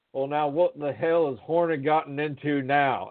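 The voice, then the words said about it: Southern drawl. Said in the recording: “in his best Southern drawl”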